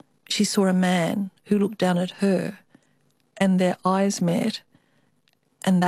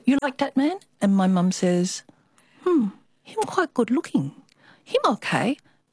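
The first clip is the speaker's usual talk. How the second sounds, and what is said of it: Put-on Chinese accent. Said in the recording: “I always have to do the Chinese accent.”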